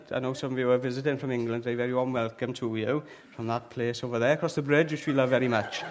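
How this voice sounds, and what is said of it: Slight Welsh accent. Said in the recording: “I've got a bit of a Welsh accent.”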